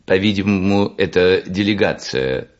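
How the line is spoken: Plain. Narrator (Russian): сказал ракета

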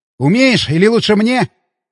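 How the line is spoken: Shout while running. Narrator (Russian): крикнул я, подбегая к машине

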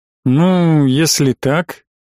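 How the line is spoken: Doubtful drawl. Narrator (Russian): протянул с сомнением

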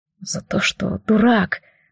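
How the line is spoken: Breathed out. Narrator (Russian): выдохнул рыжий

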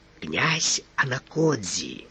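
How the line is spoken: Whispered. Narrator (Russian): шепнул Фондорину консул

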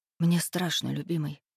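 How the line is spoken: Whisper. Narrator (Russian): прошептала я

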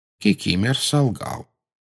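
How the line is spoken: Calm explanation. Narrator (Russian): спокойно объяснил Дамблдор

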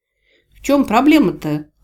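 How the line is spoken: Irritated question. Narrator (Russian): раздраженно переспросила я

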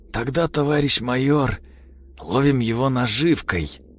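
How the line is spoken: Hoarse reply. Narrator (Russian): хрипло ответил лейтенант

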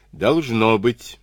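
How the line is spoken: Plain. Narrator (Russian): ответил другой

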